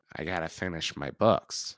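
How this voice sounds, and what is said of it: Imitates another person's voice. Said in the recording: “That was a good impression. ... That's pretty good.”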